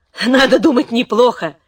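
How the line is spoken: Laughing. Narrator (Russian): засмеялась донья Елена

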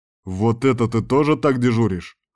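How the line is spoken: Angry question. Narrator (Russian): зло спросил он

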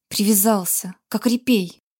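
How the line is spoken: Hissing. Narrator (Russian): прошипел Грег

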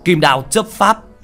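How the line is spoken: Loud battle shout. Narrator (Vietnamese): Binh sĩ hét lớn một tiếng

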